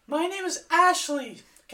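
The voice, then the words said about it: Imitates a girl's voice. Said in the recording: “my best girl impression”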